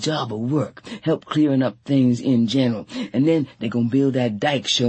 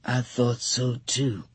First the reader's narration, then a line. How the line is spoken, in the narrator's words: Tea Cake said very quietly